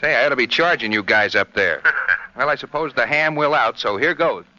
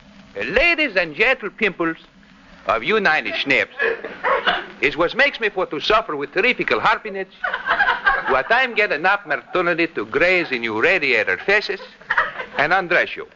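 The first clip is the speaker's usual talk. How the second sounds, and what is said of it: Comic Greek dialect imitation. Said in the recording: “Greek dialect of yours? You know, your imitation of that vaudeville actor, George Givett.”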